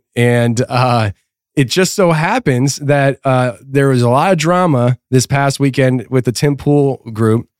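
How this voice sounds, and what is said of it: Sick-sounding voice. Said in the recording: “I'm still sick, but people can hear it in my voice.”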